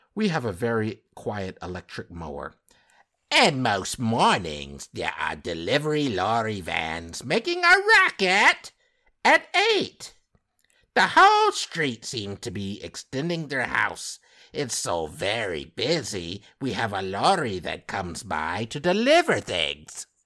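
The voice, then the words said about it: Put-on British accent. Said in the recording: “you don't like my accent? That's my British accent. ... Sounds like Mrs. Doubtfire.”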